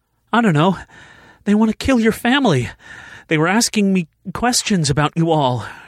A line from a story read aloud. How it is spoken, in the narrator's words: she said, gasping for air again